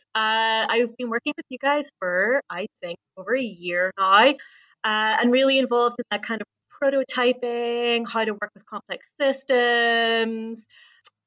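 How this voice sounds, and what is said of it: Scottish Glasgow accent. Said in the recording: “I am based in Glasgow in Scotland. So gonna do my best to slow down so that my accent can be le- uh, intelligible to folks.”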